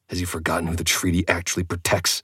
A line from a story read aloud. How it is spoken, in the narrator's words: I hissed